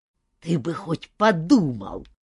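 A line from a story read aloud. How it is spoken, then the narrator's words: Angry scolding through pipe. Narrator (Russian): сердито выговаривал он, ожесточенно грызя трубку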